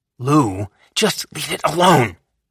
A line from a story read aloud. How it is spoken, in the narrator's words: she snapped